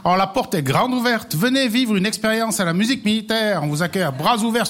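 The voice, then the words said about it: Valais Swiss French accent. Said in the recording (French): “l'accent de ton invité? Qu'est-ce qu'il a comme accent? ... Il a son accent. ... Valaisan.”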